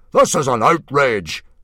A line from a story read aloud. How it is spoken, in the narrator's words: boomed Mogadon